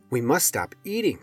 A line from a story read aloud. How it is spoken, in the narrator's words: cried Toad